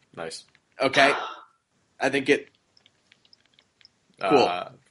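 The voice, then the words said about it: Impression of a friend's voice. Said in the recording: “That was a great impersonation of Russ”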